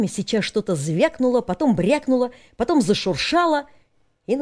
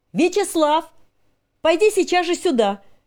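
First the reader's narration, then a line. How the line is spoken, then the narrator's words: Shouting through window. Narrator (Russian): крикнула она в раскрытое окно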